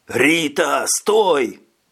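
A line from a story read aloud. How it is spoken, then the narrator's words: Roar. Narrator (Russian): взревел Скабет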